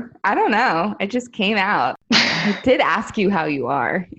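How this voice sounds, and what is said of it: Usual voice. Nothing is said of it.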